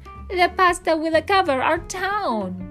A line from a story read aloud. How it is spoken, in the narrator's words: they cried